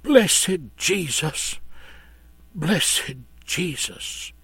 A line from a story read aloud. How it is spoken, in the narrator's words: in a faint whisper said